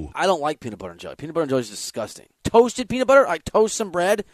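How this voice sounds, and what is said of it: Usual voice. Nothing is said of it.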